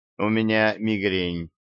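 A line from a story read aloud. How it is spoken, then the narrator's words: Dry reply. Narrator (Russian): сухо ответила она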